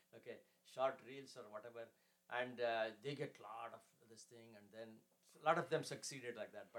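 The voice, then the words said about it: Speaker's own accent. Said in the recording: “I'm sorry for my accent.”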